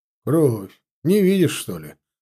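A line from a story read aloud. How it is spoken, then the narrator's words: Scoffing. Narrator (Russian): хмыкнул Чанов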